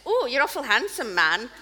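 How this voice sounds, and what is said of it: Put-on Fife Scottish accent. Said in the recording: “you have to work a wee bit on your Fife accent ... That's not bad”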